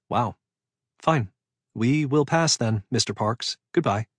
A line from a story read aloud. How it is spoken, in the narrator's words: Her voice was tense as she said in a clipped tone